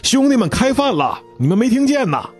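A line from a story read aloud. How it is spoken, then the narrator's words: Staff calling out. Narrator (Chinese): 服务人员又在喊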